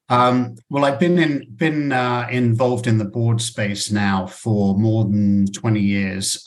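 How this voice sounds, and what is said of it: British accent. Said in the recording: “originally he comes from the UK ... you need to keep your accent”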